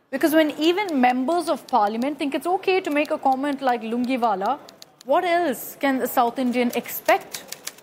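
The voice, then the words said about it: South Indian accent. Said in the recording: “my South Indian accent”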